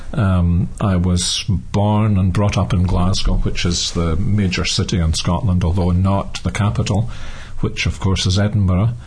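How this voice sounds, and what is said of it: Scottish accent. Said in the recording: “I'm Scottish, as most people are able to tell by my accent.”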